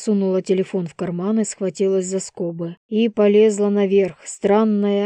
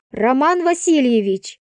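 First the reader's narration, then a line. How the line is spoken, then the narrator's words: Shouted into phone. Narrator (Russian): крикнула она в трубку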